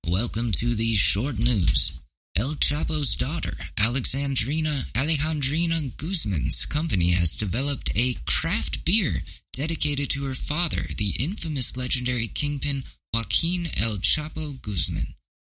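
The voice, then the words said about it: Mock news anchor voice. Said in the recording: “Should I put on my news? My news voice?”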